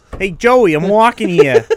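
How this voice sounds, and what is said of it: Put-on New York accent. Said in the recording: “anytime I do a New York accent”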